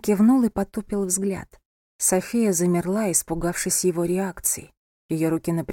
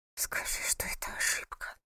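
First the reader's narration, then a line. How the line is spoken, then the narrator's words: Whisper. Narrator (Russian): прошептала она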